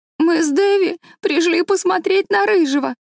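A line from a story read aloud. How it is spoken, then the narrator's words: Sobbing. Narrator (Russian): рыдала Дора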